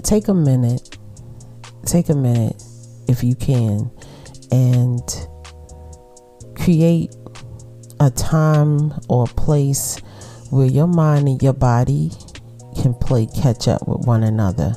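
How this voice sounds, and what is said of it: Relaxed Brooklyn accent. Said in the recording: “my relaxed conversation and my Brooklyn accent”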